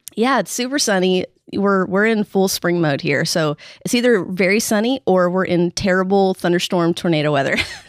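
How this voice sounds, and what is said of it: Slightly nasal, congested voice. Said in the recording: “my allergies are in full swing, so I apologize if I sound a little nasally”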